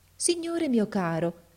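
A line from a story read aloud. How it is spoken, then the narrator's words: Very affectionate voice. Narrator (Italian): gli disse con voce molto affettuosa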